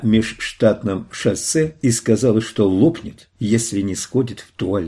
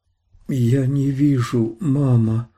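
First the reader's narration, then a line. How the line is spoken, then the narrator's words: Barely audible. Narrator (Russian): еле слышно сказала Свон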